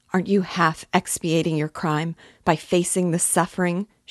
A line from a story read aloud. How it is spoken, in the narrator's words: She cried